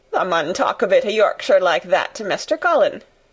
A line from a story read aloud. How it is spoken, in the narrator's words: Dickon chuckled